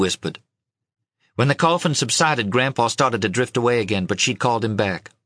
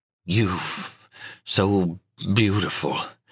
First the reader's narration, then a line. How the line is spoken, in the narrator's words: he mumbled